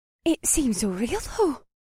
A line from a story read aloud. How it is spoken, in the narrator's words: Faye panted